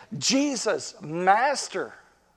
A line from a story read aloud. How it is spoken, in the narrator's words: all 10 of them came to Jesus, and in a loud voice